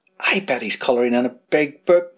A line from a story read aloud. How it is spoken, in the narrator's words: whispered Buckle